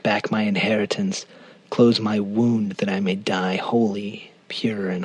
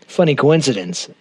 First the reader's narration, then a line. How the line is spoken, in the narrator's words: Owen said